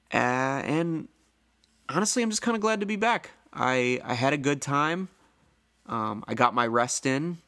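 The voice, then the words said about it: Slightly hoarse voice. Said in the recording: “My voice is still a little hoarse, but that's from talking so much and so loudly”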